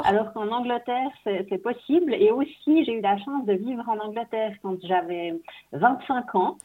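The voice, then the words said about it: Swiss French accent. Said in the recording (French): “moi, je suis suisse, vous entendez peut-être ... ça ... avec mon accent”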